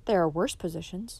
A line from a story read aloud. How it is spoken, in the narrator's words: replied sadly